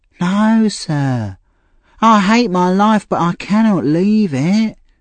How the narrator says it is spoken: replied Nancy sadly

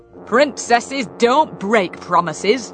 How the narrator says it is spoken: interrupted sternly

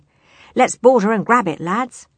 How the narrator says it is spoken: cried Cutlass

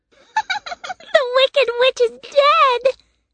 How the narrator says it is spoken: they cried

